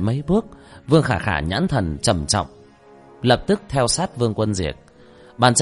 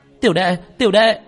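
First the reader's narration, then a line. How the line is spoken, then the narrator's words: Terrified scream. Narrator (Vietnamese): Vương Khả Khả sợ hãi cả kinh gào lên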